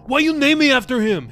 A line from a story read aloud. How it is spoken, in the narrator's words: He shouted